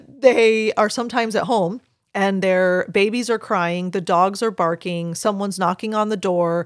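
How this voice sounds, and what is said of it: Usual voice. Nothing is said of it.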